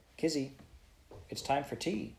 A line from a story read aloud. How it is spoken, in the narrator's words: said Miss Brooke